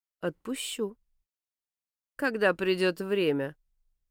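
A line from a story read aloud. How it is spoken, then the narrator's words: Calm reply. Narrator (Russian): спокойно отзывается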